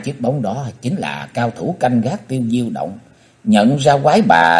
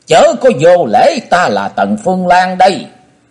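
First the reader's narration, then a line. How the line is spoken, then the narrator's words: Shrill scream. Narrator (Vietnamese): Quái bà thét lên lanh lảnh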